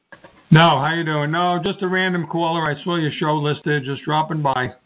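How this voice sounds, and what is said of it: New York City accent. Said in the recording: “New York City, fantastic. I recognize that kind of a accent or twang in your voice.”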